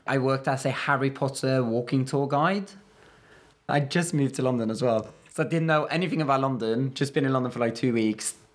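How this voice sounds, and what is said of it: Fairly strong non-native accent. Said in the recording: “do you think your accent is strong? ... I think it's pretty strong, yeah.”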